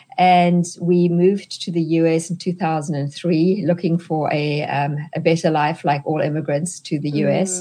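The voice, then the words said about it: South African accent. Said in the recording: “you can hear from my accent that I'm not a native-born American. I'm actually South African”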